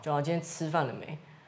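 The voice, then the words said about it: Exaggerated Taichung accent, unretroflexed sibilants. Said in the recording (Chinese): “我们会说知吃诗日不分嘛。我确实如果平常懒得讲话的时候，我就会就是随便发音 ... 这太夸张，太夸张了 ... 台中人好像会这样”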